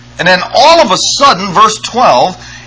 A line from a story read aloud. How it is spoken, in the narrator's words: he screams out